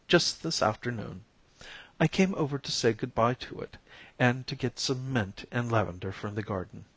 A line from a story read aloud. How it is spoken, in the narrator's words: said Daphne, with a small quaver in her voice